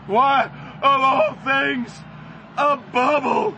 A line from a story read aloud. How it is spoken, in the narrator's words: Stinker yelled, near tears